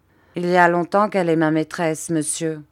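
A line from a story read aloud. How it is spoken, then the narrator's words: Plain. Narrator (French): répondit Peggotty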